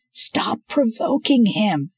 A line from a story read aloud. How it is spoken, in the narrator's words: Scarlet yelled